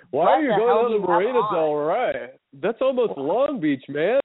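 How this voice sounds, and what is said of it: Imitates a comedy sketch character's voice. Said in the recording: “terrible Saturday Night Live impression ... I do a pretty good Fred Armisen.”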